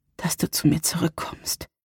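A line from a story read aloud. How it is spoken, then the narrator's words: Whispering. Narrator (German): flüsterte sie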